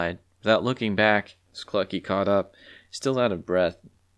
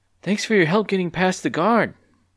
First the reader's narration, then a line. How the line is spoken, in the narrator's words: panted Clucky